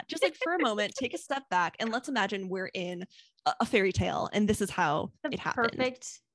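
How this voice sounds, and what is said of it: Imitates another person's voice. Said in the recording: “That was a very good impression of me.”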